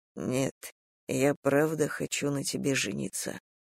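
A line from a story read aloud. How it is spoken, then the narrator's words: Whispered. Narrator (Russian): прошептал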